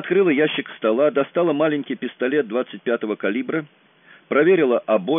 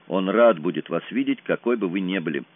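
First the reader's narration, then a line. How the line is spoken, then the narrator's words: Muttered. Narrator (Russian): пробормотал я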